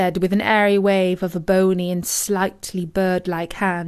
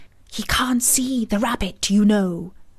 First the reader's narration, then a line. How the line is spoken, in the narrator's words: she added with a loud stage whisper